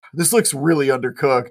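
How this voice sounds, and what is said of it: Imitates another person's voice. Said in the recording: “that is a classic Teddy imitation... The pause, the the, eye went really down”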